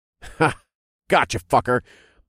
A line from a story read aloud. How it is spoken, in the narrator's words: chuckled